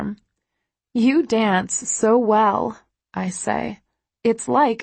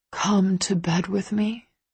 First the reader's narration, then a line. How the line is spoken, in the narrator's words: he whispers, and it's a heartfelt plea